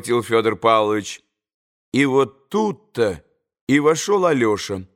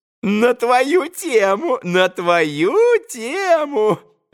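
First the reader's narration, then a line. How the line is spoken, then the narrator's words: Gleeful giggling. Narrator (Russian): Радостно хихикал он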